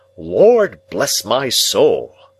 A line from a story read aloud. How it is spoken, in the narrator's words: exclaiming